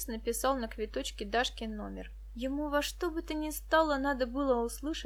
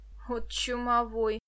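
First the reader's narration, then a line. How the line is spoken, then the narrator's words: Grumble. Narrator (Russian): проворчала девушка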